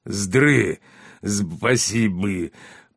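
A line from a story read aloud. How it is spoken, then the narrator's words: Growled. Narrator (Russian): прорычал минотавр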